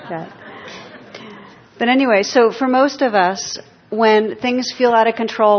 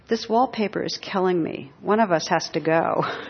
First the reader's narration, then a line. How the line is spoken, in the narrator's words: Oscar Wilde on his deathbed was drifting in and out of consciousness, and once he opened his eyes and he was heard to murmur